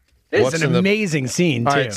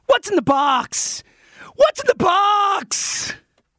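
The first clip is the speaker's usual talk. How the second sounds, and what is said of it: Impression of the 'What's in the box' line. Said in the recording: “you do a pretty good impersonation of What's in the Box ... that was horrible”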